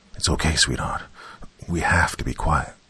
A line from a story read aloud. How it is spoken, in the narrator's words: Malcolm whispered to his daughter, his tears soaking into his beard